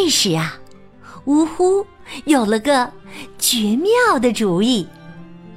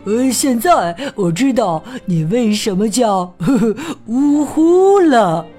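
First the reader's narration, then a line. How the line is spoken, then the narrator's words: Laughing. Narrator (Chinese): 毛毛笑着说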